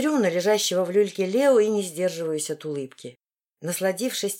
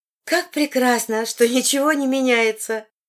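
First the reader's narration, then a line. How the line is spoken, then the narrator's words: Cheerful. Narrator (Russian): весело заявляет Крис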